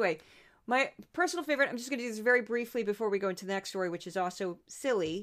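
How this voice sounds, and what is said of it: Usual voice. Nothing is said of it.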